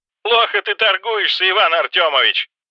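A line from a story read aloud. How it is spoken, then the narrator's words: Laughing. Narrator (Russian): рассмеялся Валентина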